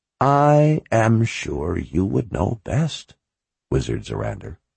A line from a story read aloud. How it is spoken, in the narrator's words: she said in an even voice